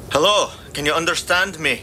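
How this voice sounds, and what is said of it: Strange, unplaceable accent. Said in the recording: “His voice had a strange accent to it that Ruby couldn't place.”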